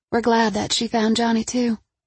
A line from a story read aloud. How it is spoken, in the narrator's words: Tawny said softly